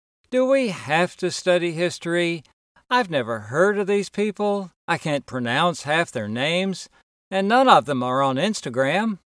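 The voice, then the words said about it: Whiny child's voice. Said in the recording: “spoken in a whiny voice.”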